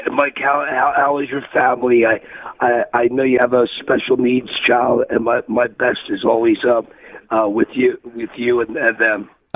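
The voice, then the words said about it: Strained, unwell-sounding voice. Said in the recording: “excuse my voice. It's not from yelling. That something came over the last couple of days.”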